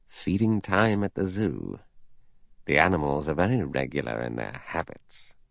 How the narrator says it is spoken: Lombard said softly

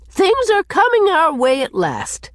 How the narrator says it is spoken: she told Cousin Sophia triumphantly

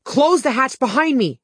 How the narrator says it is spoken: I yelled

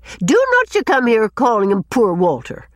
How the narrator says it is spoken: said Susan indignantly

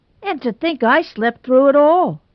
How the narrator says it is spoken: moaned Tommy Nelson, heartbrokenly

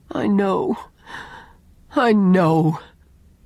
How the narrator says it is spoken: groaned Owen

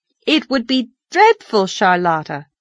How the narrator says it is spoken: said Anne firmly

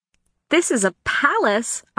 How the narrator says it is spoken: I exclaimed

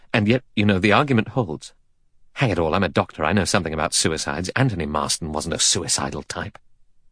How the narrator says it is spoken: Armstrong said gravely

